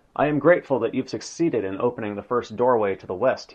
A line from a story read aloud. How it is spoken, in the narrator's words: he said